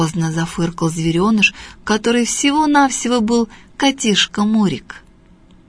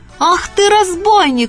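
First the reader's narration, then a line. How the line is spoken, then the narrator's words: Shouting cook. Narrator (Russian): закричала кухарка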